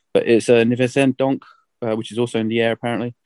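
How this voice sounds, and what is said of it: Poor attempt at French accent. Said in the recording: “My French accent is awful”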